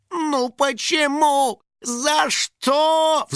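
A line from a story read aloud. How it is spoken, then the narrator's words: Desperate howl. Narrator (Russian): взвыл Финик, когда понял, что бежать дальше некуда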